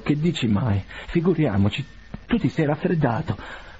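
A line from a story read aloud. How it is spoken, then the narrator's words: Stammered. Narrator (Italian): balbettò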